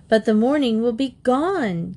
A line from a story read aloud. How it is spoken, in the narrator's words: Katie cried